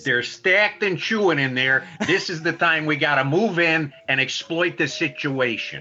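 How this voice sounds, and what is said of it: Put-on Chicago accent. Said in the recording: “you do a little Chicago impersonation or dialect.”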